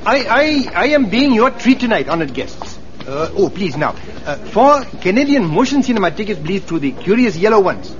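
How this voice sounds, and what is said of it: Exaggerated put-on foreign accent. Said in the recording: “is that not a good accent ... It's about three accents removed from here.”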